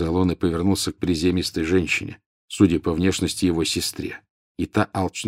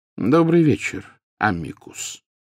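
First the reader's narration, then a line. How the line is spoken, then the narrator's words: Calm, casual greeting. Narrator (Russian): спокойно произнес Дамблдор, словно приветствуя гостя, явившегося на чашку чая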